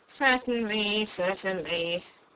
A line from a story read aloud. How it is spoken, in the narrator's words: the king muttered